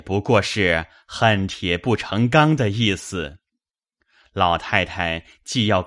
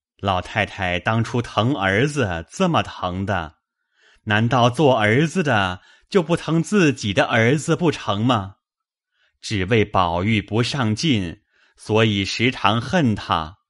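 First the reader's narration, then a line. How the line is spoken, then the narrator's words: Ingratiating smile. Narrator (Chinese): 贾政陪笑说道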